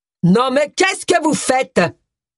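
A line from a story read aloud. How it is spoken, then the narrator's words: Booming thunderous voice. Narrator (French): tonna une voix de stentor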